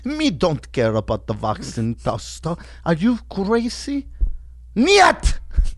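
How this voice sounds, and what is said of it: Mix of put-on foreign accents. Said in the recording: “that was like five different accents, bro ... I'm not a good accenter.”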